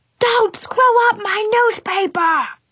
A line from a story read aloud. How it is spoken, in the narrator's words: He yelled